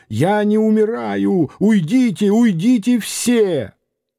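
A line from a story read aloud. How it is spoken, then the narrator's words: Shouting. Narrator (Russian): закричал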